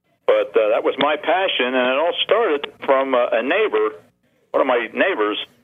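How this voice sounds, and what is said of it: Slight New Jersey accent, twang. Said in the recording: “that little twang on my. Still have that little bit of a New Jersey accent”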